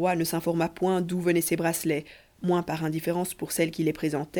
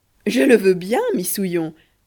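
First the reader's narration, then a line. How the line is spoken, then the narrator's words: Wild laughter. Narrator (French): dit Truitonne en riant comme une perdue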